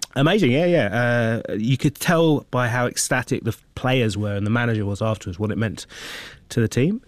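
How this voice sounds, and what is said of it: Hoarse voice. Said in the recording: “shout myself hoarse ... the voice is a little bit hoarse”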